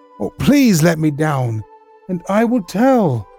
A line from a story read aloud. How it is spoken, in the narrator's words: he shrieked out